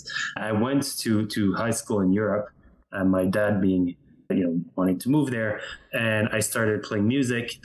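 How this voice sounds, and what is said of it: French Canadian accent. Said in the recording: “French Canada, hence the accent.”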